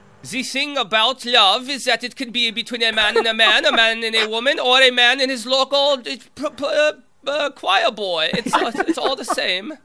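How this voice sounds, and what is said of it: Exaggerated comedic German accent. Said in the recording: “It's like a German accent out of a Mel Brooks movie.”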